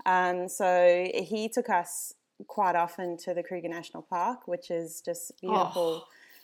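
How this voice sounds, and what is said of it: South African accent. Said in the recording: “I grew up in South Africa, if you can't hear the accent ... I picked it up ... I'll try to really hammer it in there.”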